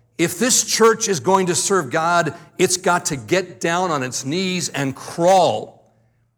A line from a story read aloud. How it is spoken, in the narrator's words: he says to the church with a yell